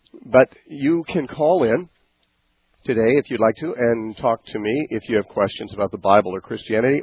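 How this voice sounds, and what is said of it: Congested, stuffed-up nasal voice. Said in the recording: “My voice is still affected ... I've had laryngitis ... sinuses that are like totally clogged up. So I just sound, well, I probably sound like somebody with sinuses really clogged up”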